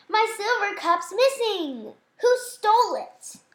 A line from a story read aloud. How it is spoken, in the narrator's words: he cried